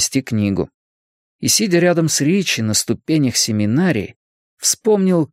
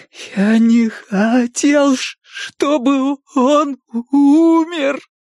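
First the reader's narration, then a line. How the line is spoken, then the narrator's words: Sobbing. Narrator (Russian): Билл продолжал рыдать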